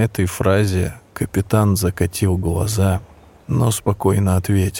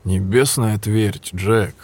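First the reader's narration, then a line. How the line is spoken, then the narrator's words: Said wearily. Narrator (Russian): устало произнес Эдвард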